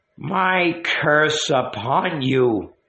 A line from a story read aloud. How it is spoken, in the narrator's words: she said wildly, hoarsely